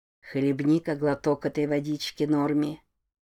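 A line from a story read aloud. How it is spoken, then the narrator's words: Whispered, skull. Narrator (Russian): прошептал череп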